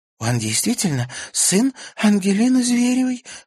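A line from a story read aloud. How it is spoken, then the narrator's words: Breathless. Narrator (Russian): выдохнула Карина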